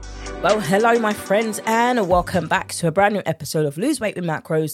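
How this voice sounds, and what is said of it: British accent. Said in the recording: “with my British accent”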